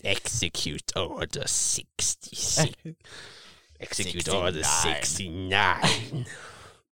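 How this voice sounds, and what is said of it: Palpatine character impression. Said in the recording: “that's like a good impression. ... best Palpatine impression”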